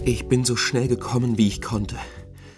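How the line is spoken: Breathless mother snorting. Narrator (German): schnaubte Gustavs Mutter, während sie nach Luft japste

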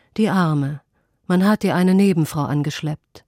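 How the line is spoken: Heavy sigh. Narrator (German): Mit einem schweren Seufzer sagt

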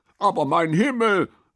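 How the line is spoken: Called out. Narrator (German): rief dieser

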